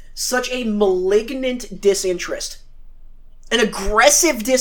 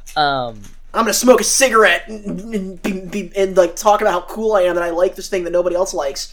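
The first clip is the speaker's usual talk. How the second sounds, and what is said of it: David Lynch impression. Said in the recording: “Great David Lynch impression.”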